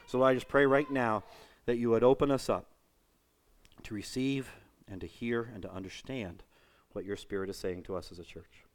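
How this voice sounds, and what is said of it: Hoarse, worn-out voice with sniffling. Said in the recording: “I'm kind of sniffling here. I think it's allergies... my voice is pretty much shot between allergies, and I've been singing all week... talking like that does not do good things to my voice”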